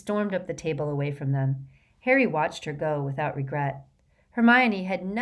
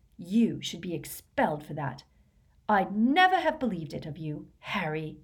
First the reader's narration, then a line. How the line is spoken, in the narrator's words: so that only Harry could hear her, she hissed